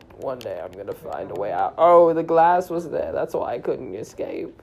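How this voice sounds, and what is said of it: Put-on British old wizard voice. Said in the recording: “Why are you like acting? ... Why did you just randomly get an accent? ... British. ... I am an old wizard.”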